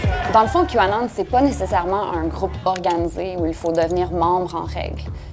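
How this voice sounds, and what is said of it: Quebec French accent. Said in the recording (French): “ce délicieux accent québécois”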